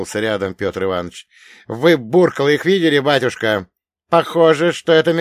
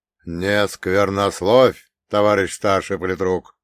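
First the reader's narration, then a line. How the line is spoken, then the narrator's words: Stern reproach from priest. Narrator (Russian): строго попенял отец Гермоген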